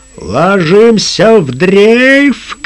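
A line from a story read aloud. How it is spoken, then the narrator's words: Shouted command. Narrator (Russian): крикнул капитан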